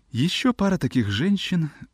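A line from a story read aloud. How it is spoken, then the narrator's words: Muttering. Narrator (Russian): бормотал он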